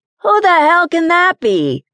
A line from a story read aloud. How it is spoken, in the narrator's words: she shouted